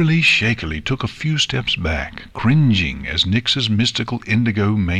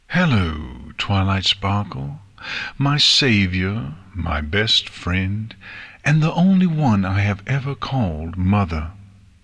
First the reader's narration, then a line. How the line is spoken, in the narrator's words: Nyx said coolly